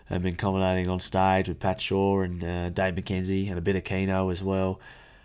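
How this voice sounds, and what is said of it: Hoarse, worn-out voice. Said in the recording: “you can probably hear my voice is a bit cooked ... my voice is absolutely cooked”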